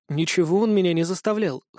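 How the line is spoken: Wry snort. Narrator (Russian): хмыкнула Иса

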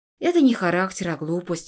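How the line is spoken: Snorting. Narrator (Russian): фыркнула

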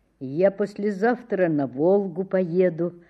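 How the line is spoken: Plain. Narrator (Russian): сказал Саша

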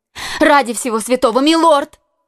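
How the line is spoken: Woman exclaiming. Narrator (Russian): воскликнула госпожа Бонасье

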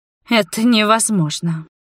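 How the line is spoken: Hoarse breathless exhale. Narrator (Russian): выдохнула тварь резко охрипшим голосом

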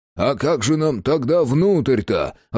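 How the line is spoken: Growling. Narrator (Russian): рыкнул Иван Демьянович

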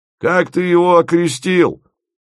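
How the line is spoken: Shouting from afar. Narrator (Russian): крикнул Фомин со своей галерки

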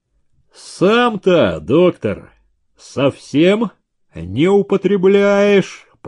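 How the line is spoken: Deep voice from audience. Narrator (Russian): пробасили из зала

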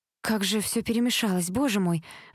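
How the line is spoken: Sighing. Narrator (Russian): вздохнула Элизабет

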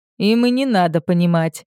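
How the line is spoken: Laughing. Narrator (Russian): рассмеялся Эрк

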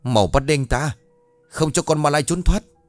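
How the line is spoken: Crowd shouting in unison. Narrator (Vietnamese): Dân làng, đồng thanh hét lớn

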